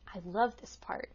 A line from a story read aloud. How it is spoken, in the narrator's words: whispering